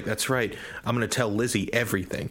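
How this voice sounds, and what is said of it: Put-on Brooklyn accent. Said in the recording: “it's got like this obvious, like Brooklyn accent.”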